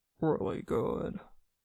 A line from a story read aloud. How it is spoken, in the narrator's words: Then, more quietly